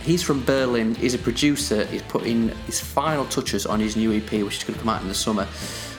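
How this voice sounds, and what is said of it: Northern English accent. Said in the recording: “my debilitating northern accent”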